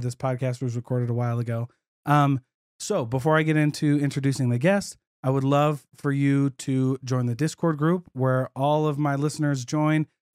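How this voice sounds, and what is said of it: Rough, sick-sounding voice. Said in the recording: “my voice. Sounds horrible. So I'm fighting a cold ... my voice is kind of crazy”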